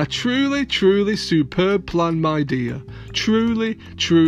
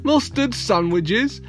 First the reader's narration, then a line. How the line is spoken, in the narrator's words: chuckled Mr